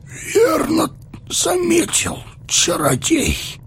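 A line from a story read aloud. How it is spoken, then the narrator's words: Hoarse voice. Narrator (Russian): Сипло заговорил Теоден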